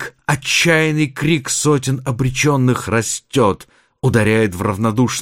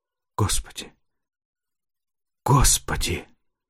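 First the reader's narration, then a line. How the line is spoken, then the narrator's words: Hoarse, anguished cry. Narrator (Russian): Хриплый, надрывный голос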